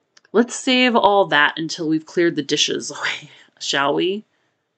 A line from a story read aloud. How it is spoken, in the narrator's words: Kenji laughed